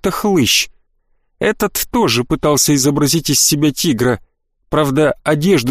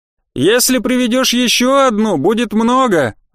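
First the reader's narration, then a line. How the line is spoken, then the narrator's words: Almost shouting over music. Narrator (Russian): ответил я почти криком, потому что музыка как-то не способствовала классическому ворчанию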